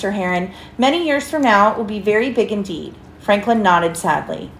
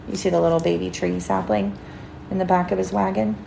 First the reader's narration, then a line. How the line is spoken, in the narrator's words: Franklin sighed